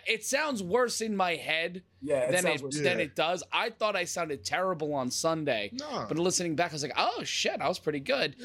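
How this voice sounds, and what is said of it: Hoarse, raspy, worn-out voice. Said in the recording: “My voice is completely shot ... I feel like I got that Patty and Selma voice going on right now.”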